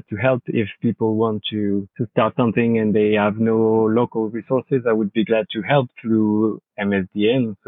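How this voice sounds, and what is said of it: French-accented English. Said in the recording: “I hope my accent is not so bad... excuse my English, but excuse my French... I think your accent will be very popular”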